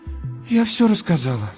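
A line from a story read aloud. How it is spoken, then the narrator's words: Sighing. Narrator (Russian): вздохнула Надежда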